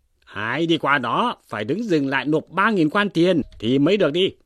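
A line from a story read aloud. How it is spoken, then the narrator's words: Three voices shouting together. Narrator (Vietnamese): 3 người cùng quát lên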